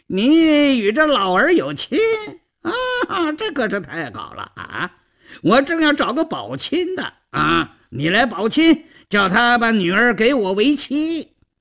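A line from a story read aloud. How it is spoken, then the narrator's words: Cheeky, wheedling. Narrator (Chinese): 赵都巡嬉皮笑脸的胡搅蛮缠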